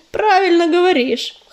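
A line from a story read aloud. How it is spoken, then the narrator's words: Snorting bird. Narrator (Russian): хмыкнул коршун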